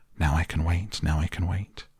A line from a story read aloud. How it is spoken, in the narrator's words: he grew quiet and kept murmuring to himself